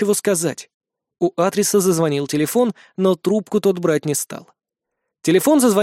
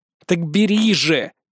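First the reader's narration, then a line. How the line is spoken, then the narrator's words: Growled. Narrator (Russian): рыкнул я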